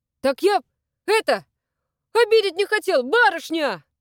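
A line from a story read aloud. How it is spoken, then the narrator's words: Young man shouting, local accent. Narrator (Russian): крикнул ей вслед парень, и в его речи мелькнул местный акцент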